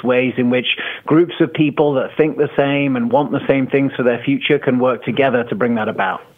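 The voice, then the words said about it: English accent. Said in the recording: “As you can hear, I've got an English accent. I grew up in the UK”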